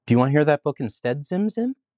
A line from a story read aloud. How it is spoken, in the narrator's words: asked Arthur sweetly